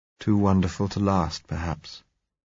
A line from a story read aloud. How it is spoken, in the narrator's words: he said softly